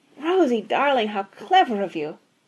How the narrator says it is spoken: exclaimed Mrs

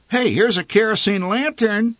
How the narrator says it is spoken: my mother said excitedly

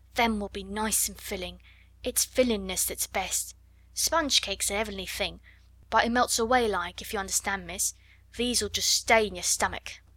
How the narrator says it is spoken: she murmured

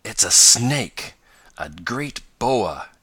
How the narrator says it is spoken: gasped Tom

